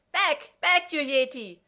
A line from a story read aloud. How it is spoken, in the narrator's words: a high-pitched shriek from inside the room, McKay shouting